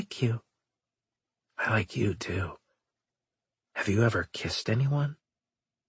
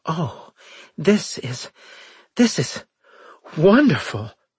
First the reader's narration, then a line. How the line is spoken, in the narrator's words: she gasped